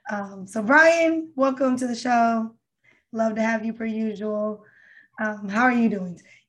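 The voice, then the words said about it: Strained, struggling voice. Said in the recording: “my struggle of a voice”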